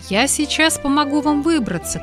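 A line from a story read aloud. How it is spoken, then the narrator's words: Shout. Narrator (Russian): крикнул он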